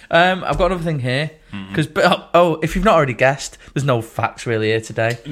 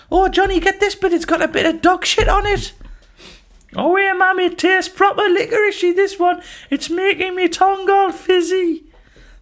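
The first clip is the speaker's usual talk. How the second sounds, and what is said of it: Impression of the co-host's voice. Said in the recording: “That's my impression of you.”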